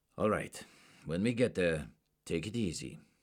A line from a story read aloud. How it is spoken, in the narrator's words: Werner said in his austere accent